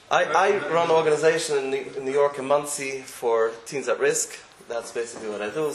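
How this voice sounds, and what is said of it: American accent. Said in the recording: “you all see I'm American. You can probably see my accent.”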